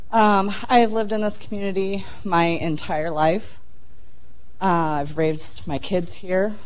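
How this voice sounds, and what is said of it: Weak voice cutting in and out. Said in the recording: “My voice may cut in and out. ... I just got over a really bad sickness”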